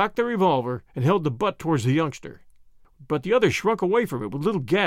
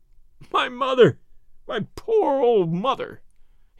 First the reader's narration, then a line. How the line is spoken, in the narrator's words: he sobbed